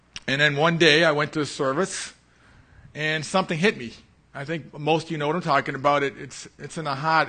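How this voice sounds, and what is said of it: Boston accent. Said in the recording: “that's that Boston accent”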